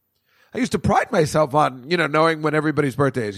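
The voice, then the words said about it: Voice cracks mid-sentence. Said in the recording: “I do a little Peter Brady action there. My voice is changing.”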